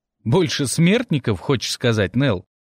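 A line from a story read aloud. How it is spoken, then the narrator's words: Laughing. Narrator (Russian): хохотнул рыжеволосый Тимми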